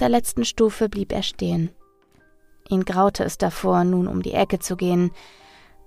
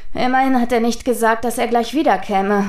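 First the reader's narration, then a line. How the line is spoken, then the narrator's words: Sighing. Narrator (German): seufzte Hotake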